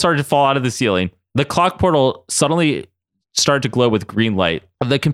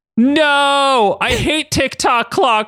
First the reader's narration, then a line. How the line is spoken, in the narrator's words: Ryan screamed as he lost grip and went hurtling into the portal